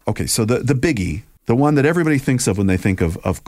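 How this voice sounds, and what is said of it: Usual voice. Nothing is said of it.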